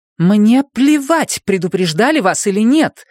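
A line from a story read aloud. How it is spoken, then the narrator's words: Snapping retort. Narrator (Russian): огрызнулась Абена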